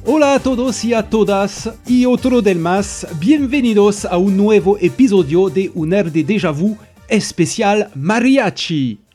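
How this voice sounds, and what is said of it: Spanish spoken with Italian accent. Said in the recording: “mon accent très italien sur de l'espagnol”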